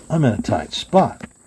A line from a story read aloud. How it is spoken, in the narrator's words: Wild Bill said to himself